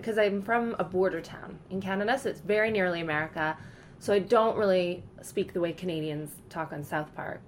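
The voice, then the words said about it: North American accent. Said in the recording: “you've got an American Canadian accent ... it's okay to say I have an American accent”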